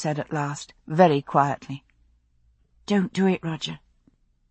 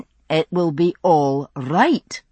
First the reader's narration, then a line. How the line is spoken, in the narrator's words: he said firmly